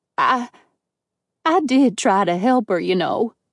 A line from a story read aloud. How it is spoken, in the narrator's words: she added in a pitiful tone